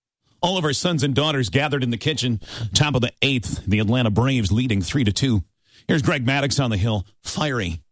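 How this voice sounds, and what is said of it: A good impression. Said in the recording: “it's a good impression ... That's a good impression.”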